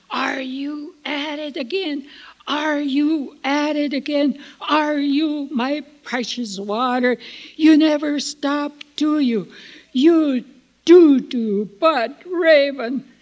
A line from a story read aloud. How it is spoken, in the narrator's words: yelling at Raven